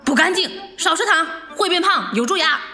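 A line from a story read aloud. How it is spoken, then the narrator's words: Loud scolding. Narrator (Chinese): 他妈妈大声的训斥他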